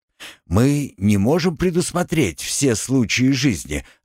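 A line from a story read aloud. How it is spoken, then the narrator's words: Plain. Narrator (Russian): ответил Оренгил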